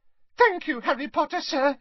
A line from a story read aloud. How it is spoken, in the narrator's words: squeaked Dobby happily